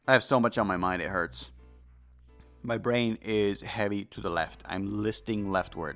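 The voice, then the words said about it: Deeper voice from illness. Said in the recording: “My voice is getting deeper, and it's not because I'm healthy. ... now we're all sick. Although I'm concerned because I'm the one that's less sick”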